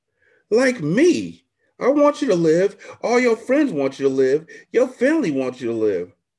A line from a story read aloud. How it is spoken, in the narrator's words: Alice cried